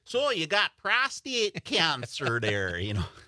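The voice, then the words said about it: Strong Wisconsin accent imitation. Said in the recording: “he's got the strong Wisconsin accent”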